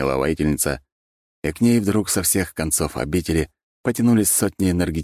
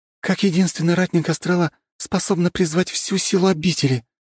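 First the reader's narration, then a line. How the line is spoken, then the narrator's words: Finishing a sentence. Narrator (Russian): закончила фразу рыжеволосая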